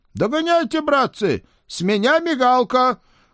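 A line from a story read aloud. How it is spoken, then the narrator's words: Shouted. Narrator (Russian): крикнул он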